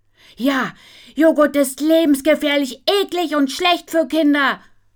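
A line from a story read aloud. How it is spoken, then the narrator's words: Yelling. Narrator (German): brüllt Nina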